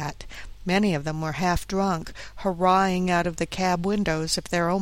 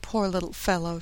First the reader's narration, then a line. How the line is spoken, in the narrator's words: she said